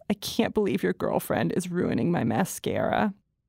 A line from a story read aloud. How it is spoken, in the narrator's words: He makes a sheepish expression and says in a thick, wet voice